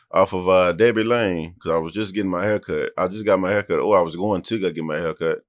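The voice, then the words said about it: Strong country accent. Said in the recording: “sounding country as hell right now, ain't I? ... Yeah, you are.”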